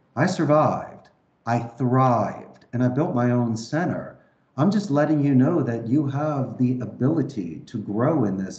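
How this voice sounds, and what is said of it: Philadelphia accent. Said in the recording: “my accent because I'm from Philadelphia. So I always have that sort of O at the end of my words.”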